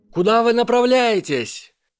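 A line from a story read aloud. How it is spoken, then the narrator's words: Shouted. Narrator (Russian): выкрикнула Амелия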